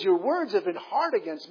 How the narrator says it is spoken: says the Lord

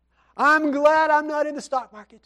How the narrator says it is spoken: he exclaimed with glee

